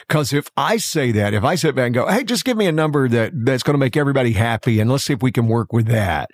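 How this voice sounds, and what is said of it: Southern American accent. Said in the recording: “the accent helps right? ... the Southern accent”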